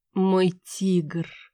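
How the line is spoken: Languid breathy exhale. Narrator (Russian): томно выдохнула я

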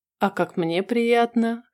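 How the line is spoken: Short chuckle. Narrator (Russian): хохотнул он

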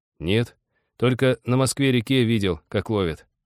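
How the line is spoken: Dejected, downcast voice. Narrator (Russian): упавшим голосом сознался Володя

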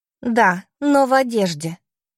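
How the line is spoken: Sarcastic remark. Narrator (Russian): язвительно замечаю я

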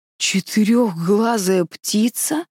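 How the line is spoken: Startled hoarse exclamation. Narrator (Russian): Чжу Янь вздрогнула и хрипло воскликнула

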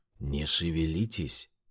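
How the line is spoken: Whispering. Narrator (Russian): шептала

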